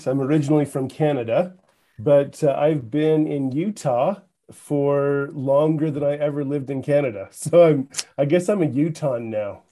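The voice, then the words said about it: Canadian accent. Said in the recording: “you're going to pick up on a Canadian accent.”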